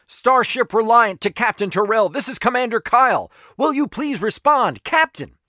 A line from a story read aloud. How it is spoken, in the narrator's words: a guy shouted into the comm